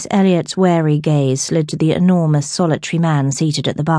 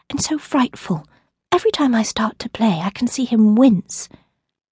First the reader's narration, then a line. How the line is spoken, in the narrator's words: whispered